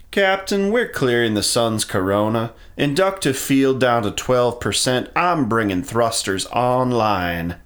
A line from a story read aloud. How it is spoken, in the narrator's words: Emo called over his shoulder in a strange southern drawl